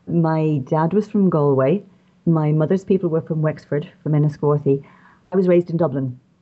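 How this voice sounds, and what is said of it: Irish accent. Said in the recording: “I'm Irish, as you can probably tell from my voice.”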